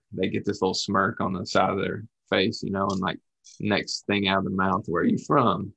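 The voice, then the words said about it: Rural American accent. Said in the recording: “this is the hillbilly from the from the sticks ... my accent sounds like Australia ... we pretty much sound alike”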